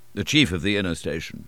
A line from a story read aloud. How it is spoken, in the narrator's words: he answered, in a short tone